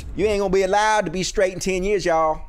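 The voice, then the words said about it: Mocking imitated Black American accent. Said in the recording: “that voice ... that accent ... such a black scent that I was doing there”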